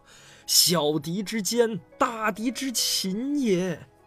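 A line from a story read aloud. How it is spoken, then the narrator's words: Exasperated furious roar. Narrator (Chinese): 孙武恨铁不成钢，气不打一处来的吼道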